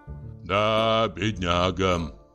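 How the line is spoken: Sighing. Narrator (Russian): вздохнул еще раз Становой

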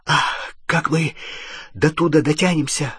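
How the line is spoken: Breathless. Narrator (Russian): выдохнул Рон

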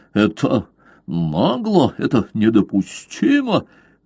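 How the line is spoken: Furious stammering. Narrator (Russian): генерал так рассвирепел, что начал даже заикаться

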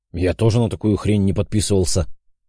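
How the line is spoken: Rude, curt. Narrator (Russian): грубо отрезал Отто

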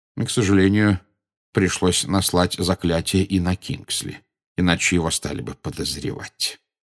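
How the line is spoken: Quiet. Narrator (Russian): негромко сказал Дамблдор

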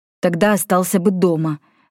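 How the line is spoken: Irritated, curt. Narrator (Russian): раздраженно бросил ему Йен

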